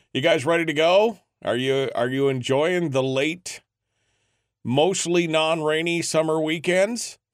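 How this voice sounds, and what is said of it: Unusually deep voice. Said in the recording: “It's the deep voice morning this morning. Oh, it's a little deep.”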